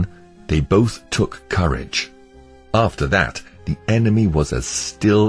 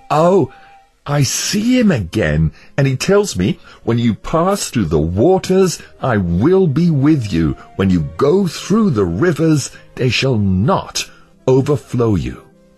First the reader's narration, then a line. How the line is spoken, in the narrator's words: Christian cried out with a loud voice